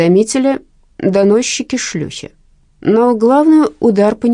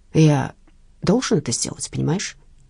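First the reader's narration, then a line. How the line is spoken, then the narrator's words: Agitated but outwardly calm. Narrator (Russian): Он взволнован, но держится спокойно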